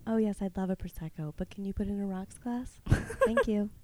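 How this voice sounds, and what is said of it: Higher, softer feminine voice. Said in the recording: “I do have a more feminine voice that I use for dates ... it's just a little higher ... it's kind of like just up here ... And you're just like softer.”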